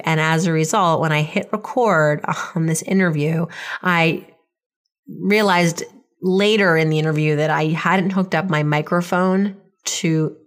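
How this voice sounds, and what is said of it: Raspy, hoarse voice. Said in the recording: “I'm still, as I said, under the weather. So my voice is kind of graspy during this interview”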